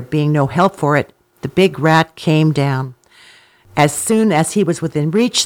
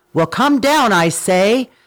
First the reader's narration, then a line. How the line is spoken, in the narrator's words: Simba roared out